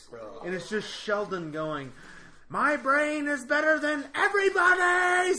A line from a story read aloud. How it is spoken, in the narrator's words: Like screaming